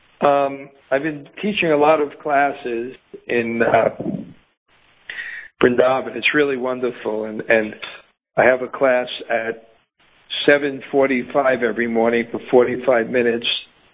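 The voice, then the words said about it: Slightly raspy voice. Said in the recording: “my throat is a little bit raspy.”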